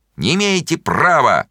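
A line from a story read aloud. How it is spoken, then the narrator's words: Shouting from a distance. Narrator (Russian): Миша Горбунов кричал из переулка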